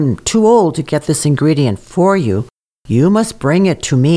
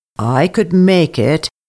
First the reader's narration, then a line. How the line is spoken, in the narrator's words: said sadly